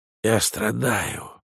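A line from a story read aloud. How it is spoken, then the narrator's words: Whispering. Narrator (Russian): прошептал Розенкранц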